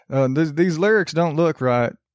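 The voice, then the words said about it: Exaggerated American Southern accent. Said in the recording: “Everyone's going to sound like they're from from the middle of nowhere in the south ... I always default to that accent”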